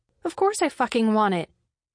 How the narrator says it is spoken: she blurted

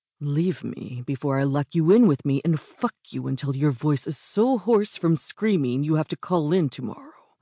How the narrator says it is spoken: growled

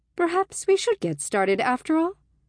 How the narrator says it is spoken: she asked brightly

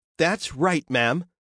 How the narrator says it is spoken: said the casino manager brightly

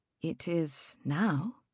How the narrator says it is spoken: Agnes murmured

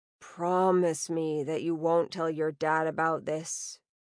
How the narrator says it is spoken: Indiana muttered low

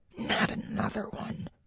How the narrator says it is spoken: muttered

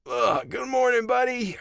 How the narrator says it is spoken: I croaked

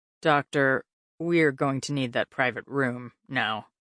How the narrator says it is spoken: Mark said, his voice grim

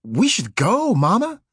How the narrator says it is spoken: he cried suddenly

